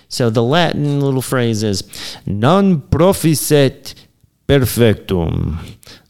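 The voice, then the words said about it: Transylvanian Dracula-like accent. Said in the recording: “That accent was really, it was like Transylvanian almost. ... Dracula.”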